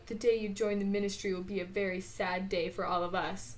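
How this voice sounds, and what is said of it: Imitates a film character's voice. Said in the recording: “That was a really good impression. ... Honestly, you sounded just like the guy from the movie.”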